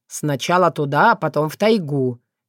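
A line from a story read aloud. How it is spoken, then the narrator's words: Wry snort. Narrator (Russian): хмыкнул Соколовский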